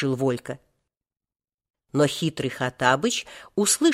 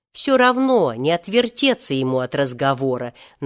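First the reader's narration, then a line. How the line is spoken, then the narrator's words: Deliberately loud. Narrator (Russian): нарочно громко сказал Волька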